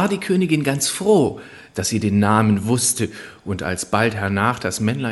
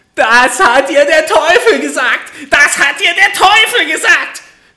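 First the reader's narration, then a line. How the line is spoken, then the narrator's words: Furious screaming little man. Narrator (German): schrie das Männlein vor Zorn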